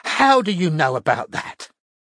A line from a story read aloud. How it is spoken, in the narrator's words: gasped Irene, looking thunderstruck